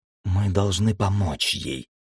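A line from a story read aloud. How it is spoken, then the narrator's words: Muttering. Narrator (Russian): пробормотала Света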